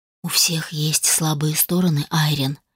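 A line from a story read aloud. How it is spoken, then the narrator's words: Quiet. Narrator (Russian): тихо произнес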